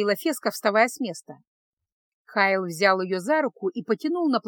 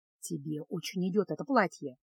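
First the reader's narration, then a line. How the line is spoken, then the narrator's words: Whisper. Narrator (Russian): шепнул чародей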